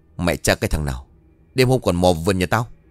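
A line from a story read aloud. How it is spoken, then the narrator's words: Old person shouting loudly. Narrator (Vietnamese): cụ liền hét lớn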